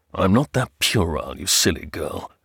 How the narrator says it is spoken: answered gruffly

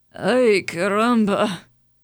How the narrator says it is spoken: muttered

